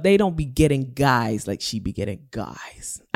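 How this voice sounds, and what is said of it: Put-on American accent. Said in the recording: “I'm saying it like that because she's American, and you know I love my good American accent.”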